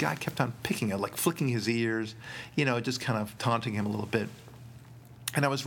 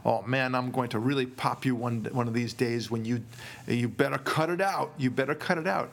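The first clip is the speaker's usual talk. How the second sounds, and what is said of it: Imitated Dutch accent. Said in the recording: “with his, you know, that Dutch accent that they have”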